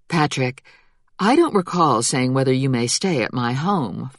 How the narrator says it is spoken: Flora said calmly

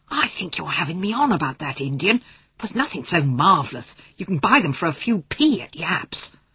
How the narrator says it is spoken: hissed Patrick

